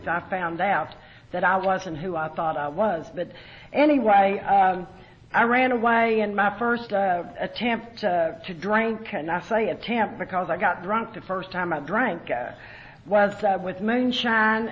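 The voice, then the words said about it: Hillbilly Southern twang accent. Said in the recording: “I guess it's hillbilly twang. ... they'll say, "Where are you from down south?" ... they never heard anybody talk like me from up north, so it's hillbilly twang.”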